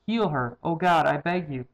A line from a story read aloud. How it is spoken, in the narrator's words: Moses cried out to the Lord